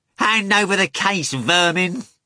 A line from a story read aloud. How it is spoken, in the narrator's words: the second man cried